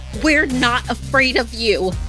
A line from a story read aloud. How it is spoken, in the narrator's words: Ani raised her fist, shouting through the window at the skinwalker